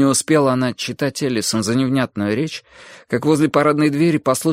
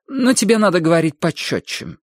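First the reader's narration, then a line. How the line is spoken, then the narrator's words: Dry interruption. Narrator (Russian): сухо прервала она ее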